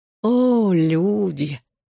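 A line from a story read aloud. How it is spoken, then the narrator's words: Purring. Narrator (Russian): промурлыкал он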